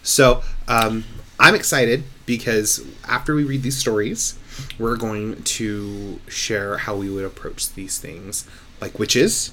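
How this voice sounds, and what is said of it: Quiet, tired voice. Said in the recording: “I might be a little bit more quiet ... my voice is a little tired”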